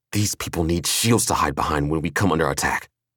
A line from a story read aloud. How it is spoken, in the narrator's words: Killian growled